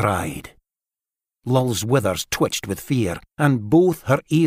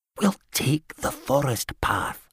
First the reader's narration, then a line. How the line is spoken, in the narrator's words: Gad whispered